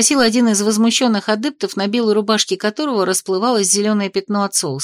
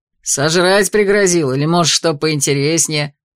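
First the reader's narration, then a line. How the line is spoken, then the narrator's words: Laughing loudly. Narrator (Russian): хохотал другой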